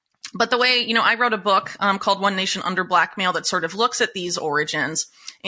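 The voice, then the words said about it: American accent. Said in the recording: “mostly focused on the United States, which is where you can probably tell from my accent where I'm from”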